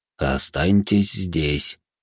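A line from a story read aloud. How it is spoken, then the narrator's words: Barely audible breath. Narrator (Russian): едва слышно, почти без движения губ, выдохнул в его сторону Бенджиро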